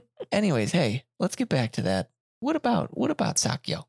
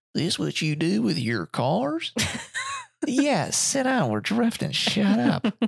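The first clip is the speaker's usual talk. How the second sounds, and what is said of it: Put-on heavy Southern accent. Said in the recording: “talking with a heavy Southern accent”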